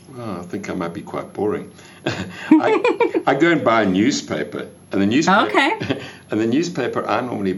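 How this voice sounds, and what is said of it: Speaks with a noticeable accent. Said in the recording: “I like your accent. That's always fun. I feel fancier.”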